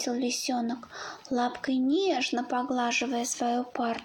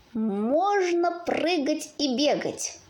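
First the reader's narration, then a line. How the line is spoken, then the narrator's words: Joyful wolf cub. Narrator (Russian): радостно предложил волчонок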